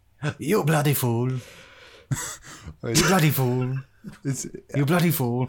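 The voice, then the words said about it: Imitates a talking duck's voice. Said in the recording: “Australian Duck says, you bloody fool ... do an impression ... dropping a little bit of an Indian accent”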